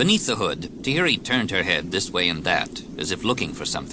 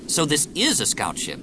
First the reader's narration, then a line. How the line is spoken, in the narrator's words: Anakin said